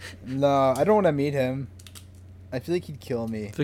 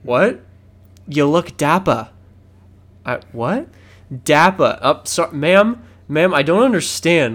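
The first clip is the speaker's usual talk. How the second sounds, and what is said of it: Put-on Boston accent. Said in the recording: “Boston accent”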